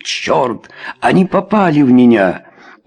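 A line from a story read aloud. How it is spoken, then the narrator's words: Sharp cry. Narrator (Russian): Чарльз вскрикнул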